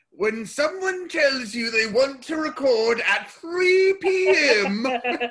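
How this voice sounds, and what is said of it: Impression of a sitcom character. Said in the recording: “my Frasier impression”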